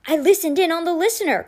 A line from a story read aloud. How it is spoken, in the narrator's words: Constance was shouting